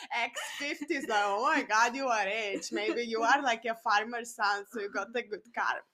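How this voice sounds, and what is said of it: Noticeable foreign accent. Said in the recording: “my accent is coming up.”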